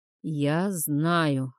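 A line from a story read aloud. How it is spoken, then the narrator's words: Breathless exhale. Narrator (Russian): выдохнул Тайрат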